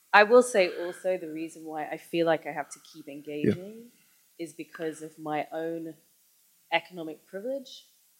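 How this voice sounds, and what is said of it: English middle-class accent. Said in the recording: “I was born and raised in white English middle class suburbia. Like I didn't get this accent from nowhere.”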